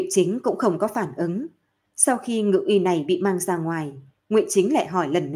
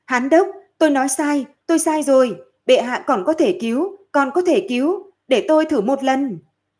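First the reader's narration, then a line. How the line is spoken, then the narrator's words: Panicked urgent shout. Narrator (Vietnamese): Ngự y này sắc mặt đại biến, vội vàng hét lên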